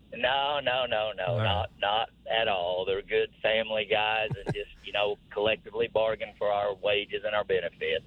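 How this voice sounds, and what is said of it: Southern US drawl. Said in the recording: “they tease me about my southern drawl”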